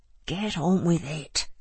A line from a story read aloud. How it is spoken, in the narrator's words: muttered Joe